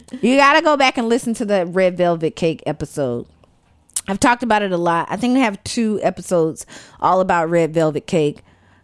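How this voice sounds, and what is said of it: Southern American accent. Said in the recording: “What did you first notice about my voice? ... the Southern accent.”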